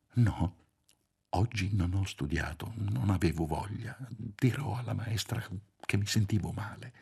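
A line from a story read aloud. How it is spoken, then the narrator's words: Whispered reply. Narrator (Italian): Sussurrando anche lui, Marcello rispose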